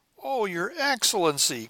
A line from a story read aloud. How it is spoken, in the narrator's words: cried the Jew